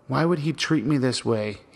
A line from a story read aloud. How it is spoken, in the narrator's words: He murmured and murmured to himself